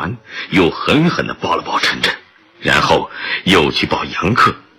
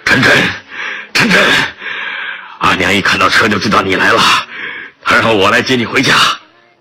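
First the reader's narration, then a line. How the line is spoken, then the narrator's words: Panting. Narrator (Chinese): 高大的巴雅尔 气喘吁吁地说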